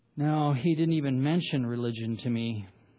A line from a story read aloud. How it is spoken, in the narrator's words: sighed and said with embarrassment